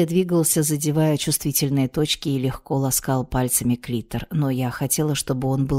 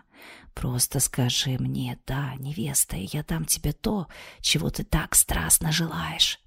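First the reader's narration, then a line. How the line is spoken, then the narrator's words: Whisper. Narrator (Russian): прошептал Алером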